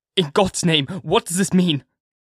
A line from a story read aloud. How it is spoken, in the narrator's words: Harker cried out